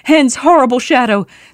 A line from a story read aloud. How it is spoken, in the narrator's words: shouted